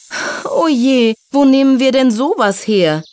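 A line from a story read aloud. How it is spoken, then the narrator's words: Little fairy sighing. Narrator (German): seufzte die kleine Hilfsfee Silja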